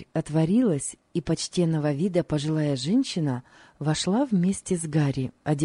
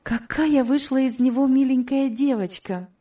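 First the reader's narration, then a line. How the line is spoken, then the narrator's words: Exclaimed. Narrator (Russian): воскликнула Элиза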